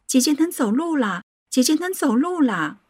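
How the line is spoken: Joyful shouting. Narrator (Chinese): 我惊喜的 又叫又喊

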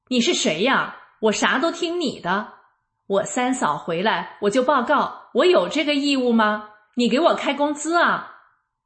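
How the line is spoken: Loud yelling. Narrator (Chinese): 小姑子大声嚷道

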